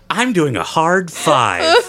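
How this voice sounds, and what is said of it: Imitates another person's voice. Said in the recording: “That was my Ryan Reynolds impersonation. ... It wasn't perfect, but it was also perfect.”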